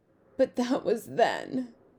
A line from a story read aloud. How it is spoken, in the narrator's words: sobbed